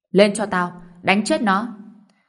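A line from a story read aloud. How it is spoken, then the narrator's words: Furious roar. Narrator (Vietnamese): Ông trẻ nổi trận lùi đình, gầm lên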